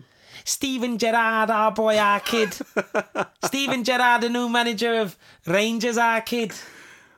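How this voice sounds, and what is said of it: Put-on Scouse accent. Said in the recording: “Give us a Scouse accent.”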